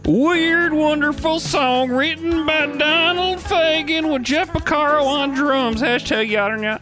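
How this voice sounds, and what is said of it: Put-on southern old prospector accent. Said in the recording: “I'll do a southern accent ... No, that was more of an old prospector.”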